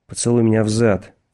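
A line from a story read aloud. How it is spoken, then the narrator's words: Growling. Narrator (Russian): прорычал Баркович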